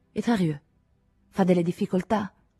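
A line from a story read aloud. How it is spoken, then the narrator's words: Anxious question. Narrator (Italian): chiese con voce ansiosa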